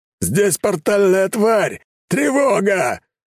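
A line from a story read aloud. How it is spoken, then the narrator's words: Yelling. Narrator (Russian): заорал могила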